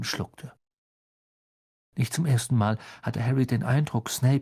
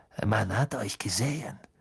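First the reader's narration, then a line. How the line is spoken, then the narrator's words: Hissed. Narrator (German): zischte Snape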